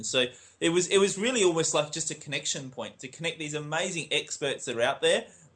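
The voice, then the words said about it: Fast-talking Australian accent. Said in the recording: “with an Aussie accent ... They really struggle with our accents ... we tend to talk quite fast in our Australian accent”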